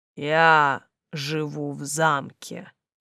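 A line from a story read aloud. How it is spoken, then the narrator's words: Monster's slow booming drone. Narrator (Russian): медленно прогудел монстр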